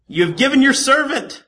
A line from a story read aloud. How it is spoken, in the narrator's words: Because he was very thirsty, he cried out to the Lord